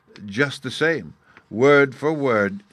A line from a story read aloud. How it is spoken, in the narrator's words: he said